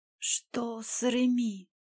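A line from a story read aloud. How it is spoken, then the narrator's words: Hoarse whisper. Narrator (Russian): сипло прошептала девушка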